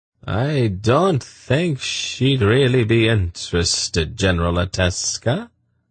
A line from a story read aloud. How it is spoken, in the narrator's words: Sadi replied coolly